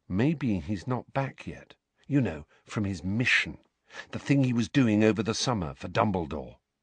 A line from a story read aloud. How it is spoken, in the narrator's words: Harry said very quietly, so that Neville, Parvati and Lavender could not hear